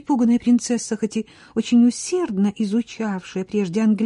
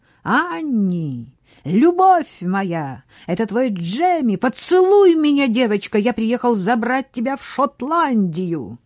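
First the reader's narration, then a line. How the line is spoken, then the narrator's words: Joyful shout. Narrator (Russian): Джеймс закричал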